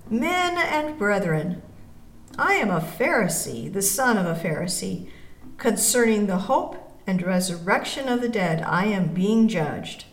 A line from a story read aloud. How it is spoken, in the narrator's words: he cried out in the council